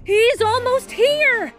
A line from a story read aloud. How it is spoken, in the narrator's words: Tommy shouted, winded from riding so fast